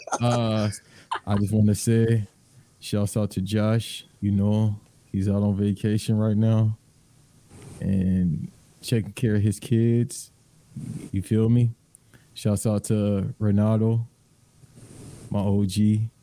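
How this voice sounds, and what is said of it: Put-on accent, strained. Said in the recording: “I can't do that accent for too long. That shit hurts.”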